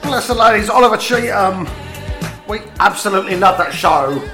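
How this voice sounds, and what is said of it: Posh West End London accent. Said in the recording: “my very, very posh West End accent”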